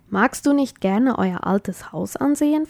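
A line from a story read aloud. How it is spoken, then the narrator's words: Plain. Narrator (German): fragte Sarah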